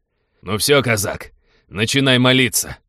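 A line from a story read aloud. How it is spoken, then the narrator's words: Gloating bark. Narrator (Russian): злорадно гаркнул он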